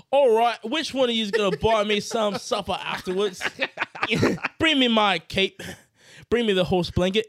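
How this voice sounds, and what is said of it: Put-on Cockney British accent. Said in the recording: “He's got this cockney British accent to me.”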